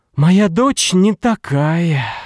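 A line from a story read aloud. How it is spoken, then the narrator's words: Sighing. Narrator (Russian): вздохнула она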